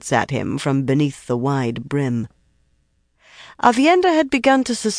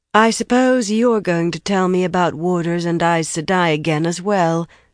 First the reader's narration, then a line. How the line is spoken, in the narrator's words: Elaine said coolly to Birgitta